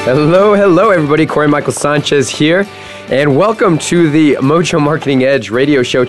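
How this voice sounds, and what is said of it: Slightly funky, off-sounding voice. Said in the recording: “my voice is a, a little bit uh, funky today ... had a major allergic reaction to the, the grass”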